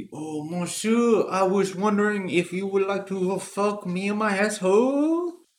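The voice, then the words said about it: Poor put-on French accent. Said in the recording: “I'm trying out a French accent. Not very good”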